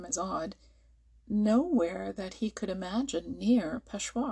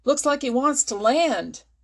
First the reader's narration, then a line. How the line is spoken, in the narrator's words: shouted the American hoarsely